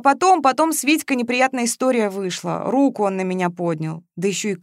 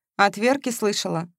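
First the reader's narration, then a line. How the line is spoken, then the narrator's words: Calm question. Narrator (Russian): спокойно спросила Ленка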